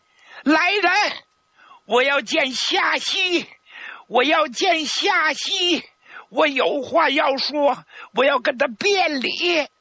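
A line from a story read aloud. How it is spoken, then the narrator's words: Emotional loud shouting. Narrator (Chinese): 他再也控制不住自己的情绪了，就大声的冲外边喊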